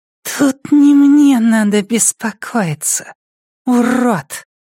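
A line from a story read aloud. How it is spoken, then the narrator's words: Hissing childlike voice. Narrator (Russian): произнес он свистящим детским голосом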